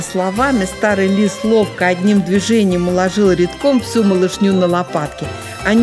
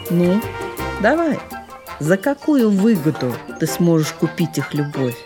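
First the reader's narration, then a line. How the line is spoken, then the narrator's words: Quiet voice. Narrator (Russian): тихо проговорил он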